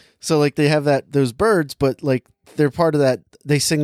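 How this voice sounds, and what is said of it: Usual voice. Nothing is said of it.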